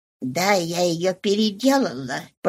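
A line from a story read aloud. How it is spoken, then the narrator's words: Slurred mumble. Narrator (Russian): пробормотала мадам Малуар, с трудом ворочая языком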